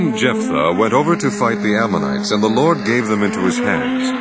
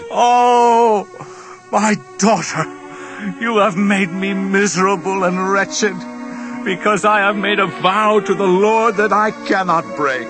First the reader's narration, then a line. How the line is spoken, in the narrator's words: he tore his clothes and cried